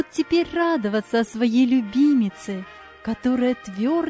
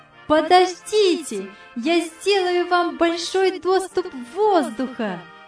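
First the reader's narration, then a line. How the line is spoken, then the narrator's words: Joyful shout. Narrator (Russian): радостно крикнула Яна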